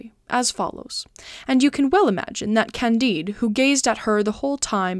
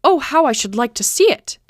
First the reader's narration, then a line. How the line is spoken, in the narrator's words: exclaimed Candide innocently